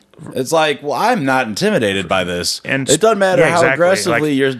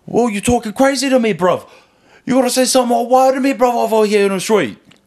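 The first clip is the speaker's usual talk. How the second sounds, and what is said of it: Mock British accent. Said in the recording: “you're talking to me in your British accent. Like, a British accent.”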